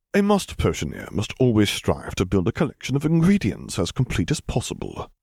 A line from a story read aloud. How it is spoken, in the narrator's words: Severus answered smoothly